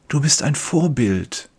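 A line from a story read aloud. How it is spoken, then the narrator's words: Whispered. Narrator (German): Andere flüstern zu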